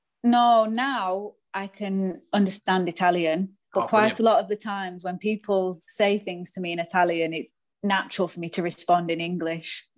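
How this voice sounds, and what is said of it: Manchester English accent. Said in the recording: “this Manchester accent”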